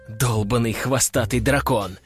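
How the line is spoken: Hissed in thought. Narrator (Russian): мысленно прошипел

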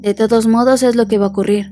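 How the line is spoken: Plain. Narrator (Spanish): dijo Lux

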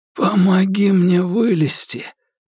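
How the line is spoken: Hoarse rasp. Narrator (Russian): прохрипел Курц

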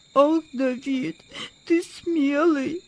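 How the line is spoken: Sobbing. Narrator (Russian): всхлипнул Владик

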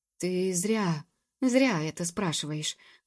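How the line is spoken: Sleepy mumbling reply. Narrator (Russian): бормотал в ответ сонный мэтр Абревиль

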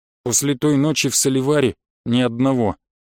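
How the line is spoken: Gloomy mechanic. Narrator (Russian): мрачно ответил механик

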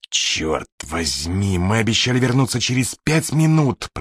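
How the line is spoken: Growling. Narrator (Russian): прорычал Холлидей

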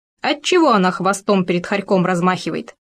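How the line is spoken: Indignant. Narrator (Russian): возмущенно заявил Хорек

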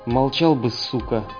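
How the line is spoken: Through gritted teeth. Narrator (Russian): процедил швед

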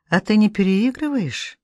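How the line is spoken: Quiet. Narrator (Russian): Она тихо говорит

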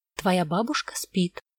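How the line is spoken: Quiet. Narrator (Russian): тихо сказала Вера

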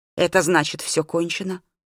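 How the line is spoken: Dejected question, facing away. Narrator (Russian): упавшим голосом спросил учитель, не оборачиваясь

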